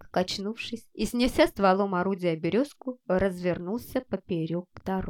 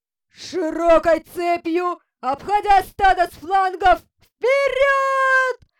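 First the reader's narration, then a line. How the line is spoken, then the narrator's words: Commander shouting, voice breaking. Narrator (Russian): Срывающимся голосом крикнул командир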